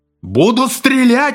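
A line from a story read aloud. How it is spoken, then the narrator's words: Frenzied yell. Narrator (Russian): иступленно заорал Фред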